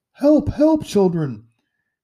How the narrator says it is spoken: she cried

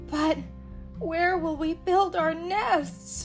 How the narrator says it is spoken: asked Lulu, her voice suddenly growing hoarse

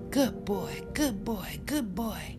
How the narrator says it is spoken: he shouted

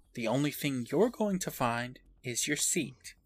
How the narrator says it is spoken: she tells him calmly

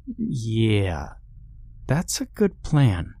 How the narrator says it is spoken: she said slowly

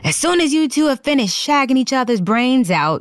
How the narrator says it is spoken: he yelled

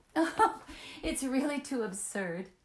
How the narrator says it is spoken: she laughed out from the threshold

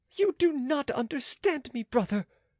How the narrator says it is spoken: cried the queen vehemently

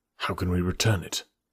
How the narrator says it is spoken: Holmes muttered

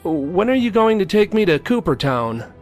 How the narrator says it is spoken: called out

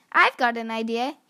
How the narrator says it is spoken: said

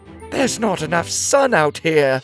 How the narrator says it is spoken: whined one

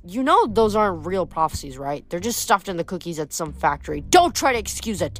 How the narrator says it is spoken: Nemesis snapped

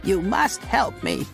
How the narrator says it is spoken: she cries

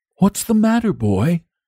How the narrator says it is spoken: he inquired kindly

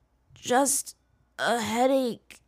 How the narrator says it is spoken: he mumbled

